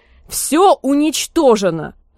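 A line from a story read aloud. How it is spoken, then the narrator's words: Terrified yelling. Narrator (Russian): заорала на него сестра ужас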